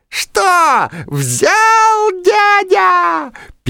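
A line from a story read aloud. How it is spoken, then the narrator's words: Squeaky. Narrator (Russian): пищал Комар Комарыч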